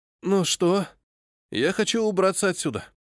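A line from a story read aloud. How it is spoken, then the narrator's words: Tired. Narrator (Russian): устало произнес Галфрид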